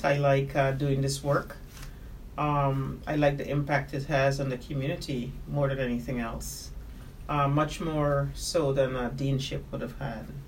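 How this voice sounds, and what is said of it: Guyanese accent. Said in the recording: “I love your accent ... you are from Guyana”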